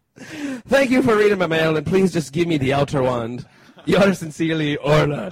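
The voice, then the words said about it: Put-on Irish accent. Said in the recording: “Only worthy of an Irish accent”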